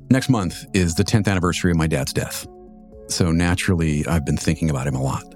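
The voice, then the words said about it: Voice not back to normal. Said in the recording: “as you can probably hear, I'm still getting over a cold and my voice just wasn't having it. It's still not quite back to normal”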